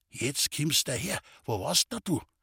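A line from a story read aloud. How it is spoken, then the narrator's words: Old man, quiet voice. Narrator (German): Der Alte sagte mit leiser Stimme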